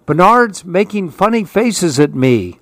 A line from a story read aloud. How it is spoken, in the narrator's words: screamed his brother